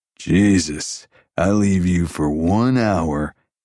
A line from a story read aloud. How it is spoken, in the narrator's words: Jason drawled